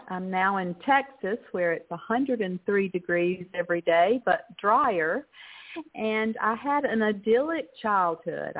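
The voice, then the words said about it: American Southern accent. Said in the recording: “I'm a Texan with a southern accent”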